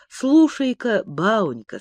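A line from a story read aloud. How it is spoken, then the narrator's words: Slow. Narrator (Russian): сказал он медленно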